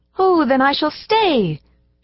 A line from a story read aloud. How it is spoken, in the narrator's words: she cried